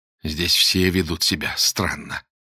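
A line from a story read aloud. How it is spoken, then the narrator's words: Through clenched teeth. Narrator (Russian): процедил Боголюбов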